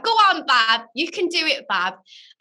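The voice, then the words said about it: Imitates another person's accent. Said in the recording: “Should I do the accent as well?”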